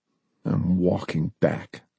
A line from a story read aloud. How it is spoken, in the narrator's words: Lee muttered